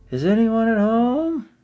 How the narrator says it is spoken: he bent down, put his head into the hole, and called out

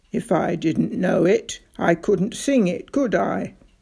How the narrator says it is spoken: It gave a wheezy little chuckle

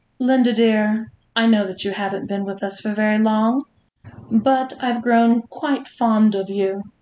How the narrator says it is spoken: Juliet said sweetly

